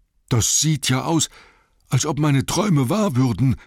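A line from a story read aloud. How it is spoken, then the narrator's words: Said breathlessly, panting. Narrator (German): sagte Bombur, der keuchend hinterdrein kam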